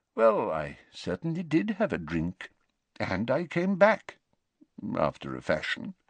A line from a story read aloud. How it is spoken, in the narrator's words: mumbled Dumbledore